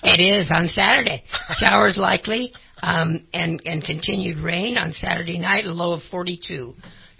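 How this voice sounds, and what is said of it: Hoarse, croaky throat. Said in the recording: “That rain choking you up, huh? ... I've got a frog in my throat”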